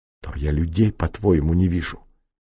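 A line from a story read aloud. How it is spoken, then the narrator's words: Hissing. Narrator (Russian): шипел прокурор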